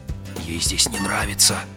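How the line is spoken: Whisper. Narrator (Russian): прошептал Грегор

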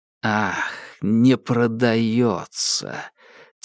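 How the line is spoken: Quiet and angry. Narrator (Russian): тихо и зло сказал он

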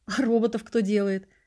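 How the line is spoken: Laughing. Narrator (Russian): засмеялся я

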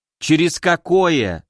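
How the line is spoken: Angry snap. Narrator (Russian): злобно бросила Кори

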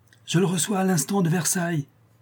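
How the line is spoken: Exclaiming. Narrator (French): s'écria-t-il

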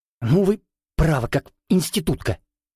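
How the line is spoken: Displeased hiss. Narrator (Russian): недовольно зашипел Родионов

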